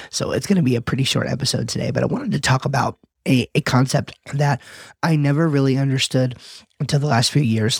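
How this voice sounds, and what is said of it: Sick, under-the-weather voice. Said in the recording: “I'm feeling a little bit under the weather. You could probably hear that in my voice.”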